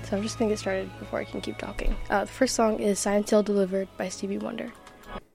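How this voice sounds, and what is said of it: Voice roughened by a cold. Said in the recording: “pardon my voice, I'm coming back from like a little cold.”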